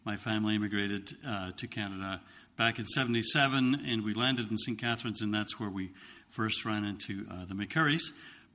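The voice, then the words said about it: Slight Scottish accent. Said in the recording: “I've got a wee bit of a Scottish accent”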